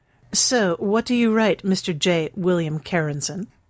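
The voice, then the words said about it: Mock upper-class accent. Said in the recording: “She put a little imitation of an upper-class accent into the last bit.”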